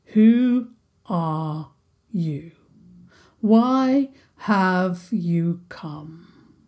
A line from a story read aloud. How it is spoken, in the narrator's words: the Troll King intoned